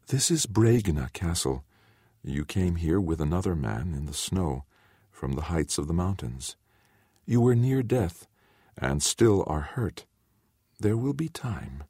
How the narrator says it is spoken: told him in her soft voice

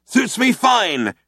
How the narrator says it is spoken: shouted Zaphod back

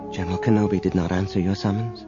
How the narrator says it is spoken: said quietly

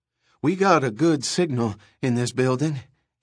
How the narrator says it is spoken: he panted

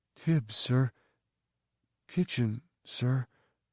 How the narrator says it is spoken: Tib whispered

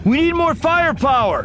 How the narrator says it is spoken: Anakin shouted

